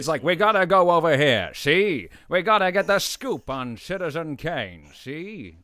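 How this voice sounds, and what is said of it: Imitated old film men's voice. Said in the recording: “All the men that I saw have the same voice ... His dad wasn't lying about the accent ... fantastic, really good.”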